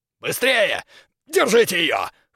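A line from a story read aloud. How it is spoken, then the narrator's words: Hoarse exclamation. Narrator (Russian): хрипло воскликнул Крюгер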